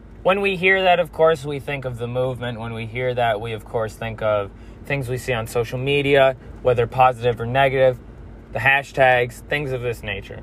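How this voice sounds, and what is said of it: Hoarse, strained voice. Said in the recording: “excuse my voice. I've gone to a couple protests recently, and I'm losing my voice.”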